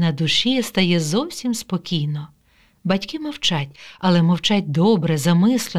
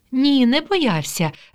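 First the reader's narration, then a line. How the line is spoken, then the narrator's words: Cheerful reply. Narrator (Ukrainian): весело відповідає мама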